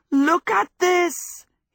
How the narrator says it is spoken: he shouted

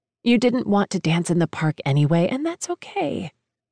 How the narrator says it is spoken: say gently, kindly

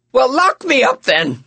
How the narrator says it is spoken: I shouted

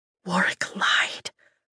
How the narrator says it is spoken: I whisper

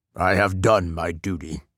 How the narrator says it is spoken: he said

